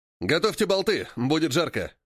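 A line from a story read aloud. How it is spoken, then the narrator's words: Harsh bark. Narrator (Russian): рявкнул Рик, оператор первой картечницы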